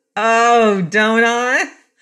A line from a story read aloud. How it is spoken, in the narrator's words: His wife laughed wildly